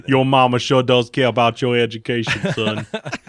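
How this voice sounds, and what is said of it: Forrest Gump character voice. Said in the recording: “that's the Forrest Gump.”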